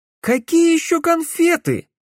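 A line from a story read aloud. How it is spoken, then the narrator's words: Yelling. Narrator (Russian): завопил Матвей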